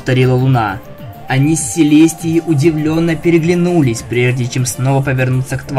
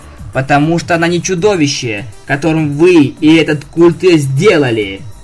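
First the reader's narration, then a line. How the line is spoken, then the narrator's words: Stern. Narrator (Russian): строго сказала Твайлайт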